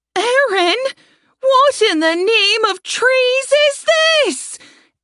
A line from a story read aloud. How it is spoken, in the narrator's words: Saria shouted